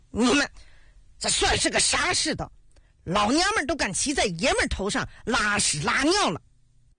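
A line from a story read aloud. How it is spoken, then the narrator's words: Sudden angry roar. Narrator (Chinese): 严大头终于忍不住了，猛地吼道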